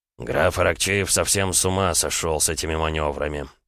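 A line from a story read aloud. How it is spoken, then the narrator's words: Grumbling. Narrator (Russian): проворчал Борятинский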